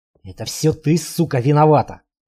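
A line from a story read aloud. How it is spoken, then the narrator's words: Husband hissing. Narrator (Russian): прошипел ее муж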